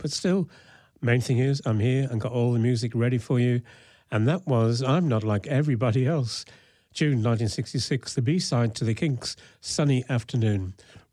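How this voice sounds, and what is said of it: Slightly rough, sick-sounding voice. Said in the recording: “excuse my voice a little bit because I'm just getting over a bout of the flu”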